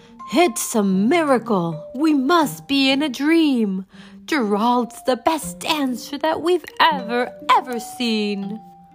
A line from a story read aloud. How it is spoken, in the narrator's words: They shouted